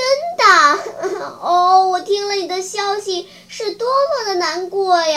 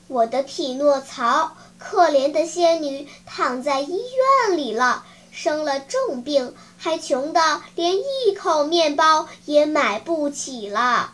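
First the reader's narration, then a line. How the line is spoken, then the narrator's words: Slow reply. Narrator (Chinese): 蜗牛还是老样子，慢吞吞地回答说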